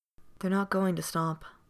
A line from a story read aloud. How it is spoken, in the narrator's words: said Keeley, so quietly